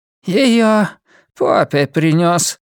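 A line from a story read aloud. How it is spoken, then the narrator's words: Hoarse, rough, strange voice. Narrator (Russian): сказала Линда сиплым, грубым, чужим голосом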